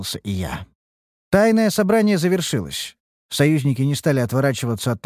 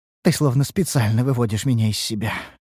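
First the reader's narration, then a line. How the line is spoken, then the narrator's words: Sigh. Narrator (Russian): вздохнула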